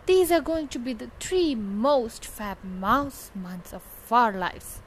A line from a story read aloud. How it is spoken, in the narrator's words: exclaimed Pam